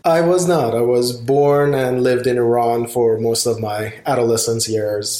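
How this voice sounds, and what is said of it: Beautiful foreign accent. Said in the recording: “I, I, I, detect a, a, a, very beautiful accent”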